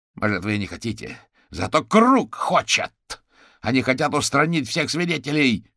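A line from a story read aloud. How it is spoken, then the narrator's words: Shouted out. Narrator (Russian): выкрикнул гусеница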